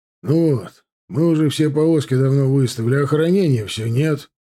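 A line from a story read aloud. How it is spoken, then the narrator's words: Grumbling quartermaster. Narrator (Russian): пробурчал главный полковой интендант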